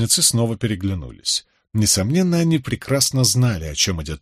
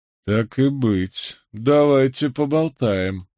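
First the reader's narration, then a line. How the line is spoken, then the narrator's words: Through gritted teeth. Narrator (Russian): процедил Джеральд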